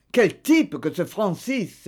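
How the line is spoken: Exclaiming. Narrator (French): s'écria Bernard

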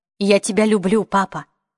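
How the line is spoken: Stern voice. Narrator (Russian): сказала Марион посуровевшим голосом

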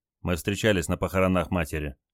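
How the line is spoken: Quietly added. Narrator (Russian): тихо добавил

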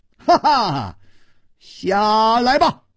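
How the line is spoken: Laughing scold. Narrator (Chinese): 他笑斥道

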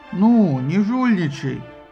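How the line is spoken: Grumbled indignantly. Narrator (Russian): возмущенно проворчала Афина

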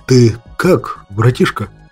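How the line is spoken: Nervous, slightly frightened. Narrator (Russian): Нервно поинтересовался у меня снап слегка испуганным голосом

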